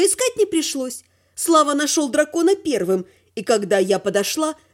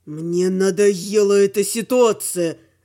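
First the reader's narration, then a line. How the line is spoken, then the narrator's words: Beastly growl. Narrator (Russian): рычал оборотень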